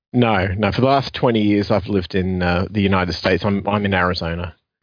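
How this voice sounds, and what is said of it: Strong Australian accent. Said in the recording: “I hear a strong Aussie twang... you still haven't shaken your accent”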